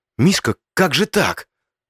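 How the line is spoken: Strained, forced words. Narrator (Russian): Только и смог я выдавить из себя

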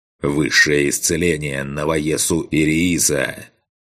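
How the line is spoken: Growled. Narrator (Russian): прорычал я

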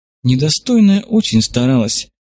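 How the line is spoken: Sighing. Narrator (Russian): вздохнула Чайганма

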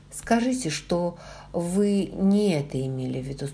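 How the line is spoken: Plain. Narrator (Russian): спросил он

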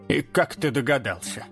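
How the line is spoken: Gruff mutter. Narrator (Russian): буркнула она

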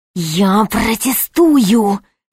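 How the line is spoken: Hissing bishop. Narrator (Russian): зашипел епископ

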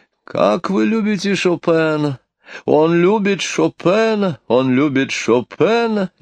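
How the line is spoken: Jubilant nasal voice. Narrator (Russian): ликующе загнусавила маркиза

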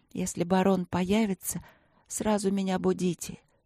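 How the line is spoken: Insistent whisper. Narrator (Russian): упорно шептала я

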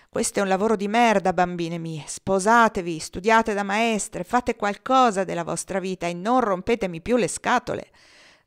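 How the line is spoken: Sad sigh. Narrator (Italian): sospirava tristemente

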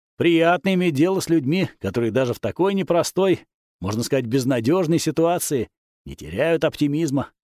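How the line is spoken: Snort. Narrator (Russian): хмыкнул я

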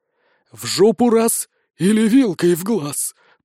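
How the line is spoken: Hoarse. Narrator (Russian): прохрипел Заград

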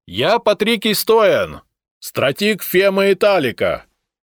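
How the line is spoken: Horseman shouting. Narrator (Russian): крикнул всадник

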